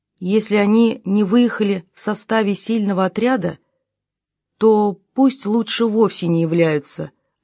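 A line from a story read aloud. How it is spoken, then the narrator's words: Plain. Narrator (Russian): ответил он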